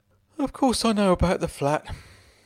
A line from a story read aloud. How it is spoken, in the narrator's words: he sighed